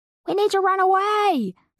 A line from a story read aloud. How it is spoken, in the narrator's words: Slicker yelled